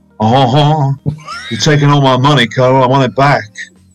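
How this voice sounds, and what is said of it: Elvis impression. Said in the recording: “Can you do an Elvis impression?”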